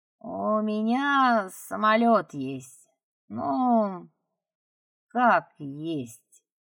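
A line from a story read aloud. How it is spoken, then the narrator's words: Drawling wolf. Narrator (Russian): протянул волк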